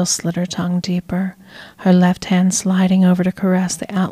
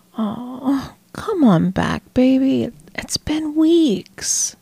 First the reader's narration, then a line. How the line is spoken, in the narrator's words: she whined